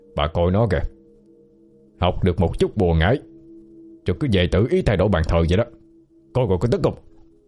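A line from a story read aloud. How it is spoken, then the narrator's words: Angry loud old man. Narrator (Vietnamese): Ông Lân giận dữ lớn tiếng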